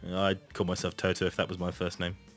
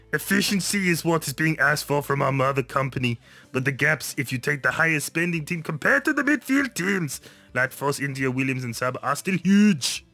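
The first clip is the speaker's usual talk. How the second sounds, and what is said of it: Deliberately bad Austrian-accented impression. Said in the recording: “doing it in a very bad Arnold Schwarzenegger impression.”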